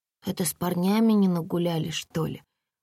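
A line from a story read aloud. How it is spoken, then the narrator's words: Mumbling with full mouth. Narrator (Russian): промямлила Комарова с набитым ртом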